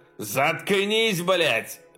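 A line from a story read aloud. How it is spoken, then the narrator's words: Yelling. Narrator (Russian): заорал Баусман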